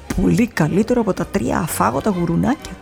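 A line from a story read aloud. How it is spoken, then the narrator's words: Murmured by president. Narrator (Greek): μουρμουρίζει ο πρόεδρος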